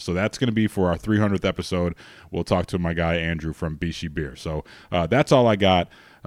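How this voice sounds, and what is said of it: Strained, failing voice. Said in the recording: “My voice is going here”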